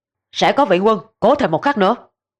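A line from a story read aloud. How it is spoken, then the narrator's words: Frenzied loud shout. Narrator (Vietnamese): Ngụy Nghiêm đã giết đến đỏ cả mắt, quay đầu quát lớn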